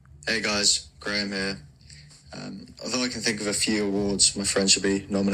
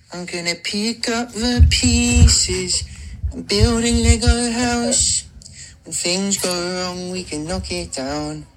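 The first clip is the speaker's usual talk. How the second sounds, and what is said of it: Singing, imitating a pop singer. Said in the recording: “my Ed Sheeran impression ... It's the Ed Sheeran guy”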